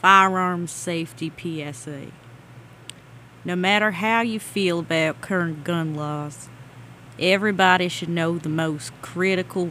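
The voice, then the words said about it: Put-on Southern Texas accent. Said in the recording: “I'm gonna do this in my best southern accent, a la Blood Simple, which takes place in Texas... don't hold me accountable if this does not sound like someone from Texas.”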